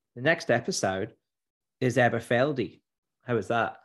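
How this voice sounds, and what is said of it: Weak put-on Australian accent. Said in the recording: “Do your best Aussie accent, mate. ... I'm not very good at it.”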